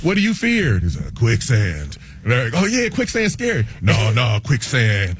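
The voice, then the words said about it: Imitates another person's voice. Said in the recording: “my Keanu Reeves impression”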